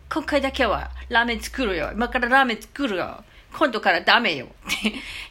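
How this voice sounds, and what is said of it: Imitates a Chinese restaurant owner's wife. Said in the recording (Japanese): “中華料理屋の奥さんのモノマネ”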